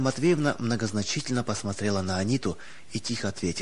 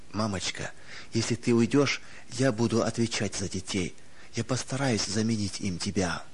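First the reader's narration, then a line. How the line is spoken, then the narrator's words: Comforting whisper, suppressed moan. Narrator (Russian): Сдерживая стон, готовый вырваться из груди, Анита, стараясь утешить ее, прошептала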